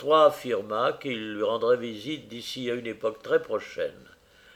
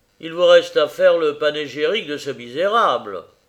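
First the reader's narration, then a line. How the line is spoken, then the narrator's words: Harsh. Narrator (French): dit durement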